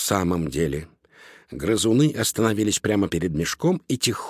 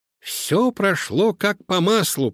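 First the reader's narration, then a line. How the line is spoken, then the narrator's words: Squeaky voice. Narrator (Russian): пропищал он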